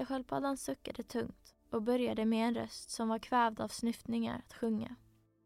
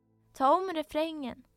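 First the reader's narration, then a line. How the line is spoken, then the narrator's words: Griffin screaming. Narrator (Swedish): skrek gripen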